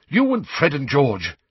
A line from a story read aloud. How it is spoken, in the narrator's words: she said impatiently